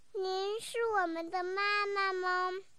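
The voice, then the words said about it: Soft, quiet childlike question. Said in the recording (Chinese): “小声地问”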